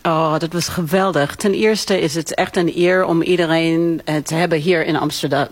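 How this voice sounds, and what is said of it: Slight American accent speaking Dutch. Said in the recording (Dutch): “je hebt een licht accent, want jij komt oorspronkelijk uit New York”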